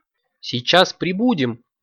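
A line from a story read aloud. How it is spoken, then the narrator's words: Cheerful puppy reply. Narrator (Russian): радостно отозвался щенок-эколог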